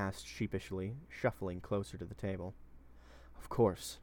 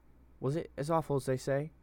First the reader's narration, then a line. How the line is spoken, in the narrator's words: Hem asked, nervously